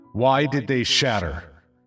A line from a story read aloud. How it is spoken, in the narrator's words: ask in a loud, commanding voice